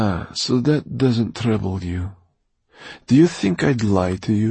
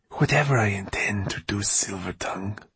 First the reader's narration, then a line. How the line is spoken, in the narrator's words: she hissed at him